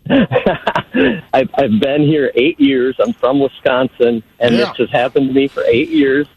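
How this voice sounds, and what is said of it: Northern US accent. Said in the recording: “here's my northern accent”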